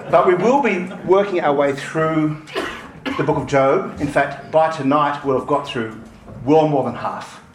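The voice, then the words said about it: Australian accent, fast speech. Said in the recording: “I'm speaking fast and in an Australian accent.”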